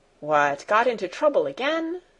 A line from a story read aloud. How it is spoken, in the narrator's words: said Sebastian in a cheerful voice